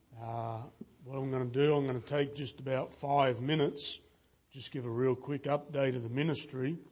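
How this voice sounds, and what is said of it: Accent different from local audience. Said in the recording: “as you can tell, I sound a little different than you all”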